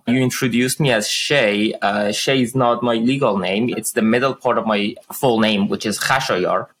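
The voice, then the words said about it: Iranian accent. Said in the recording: “The listeners could tell that I have an accent. I am an immigrant from Iran.”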